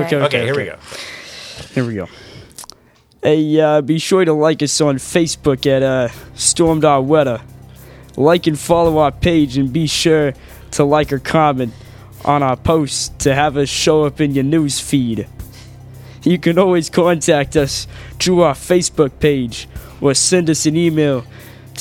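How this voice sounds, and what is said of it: New Jersey accent. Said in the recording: “I want the jersey. The jersey. ... here's ... reading the outro with his jersey accent.”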